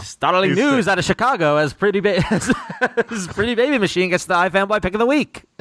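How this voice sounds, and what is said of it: Old-time newsreel announcer voice. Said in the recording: “in a newsreel voice ... the whole review as a newsreel man”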